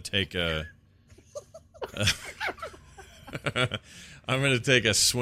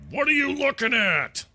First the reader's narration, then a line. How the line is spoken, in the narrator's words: going to yell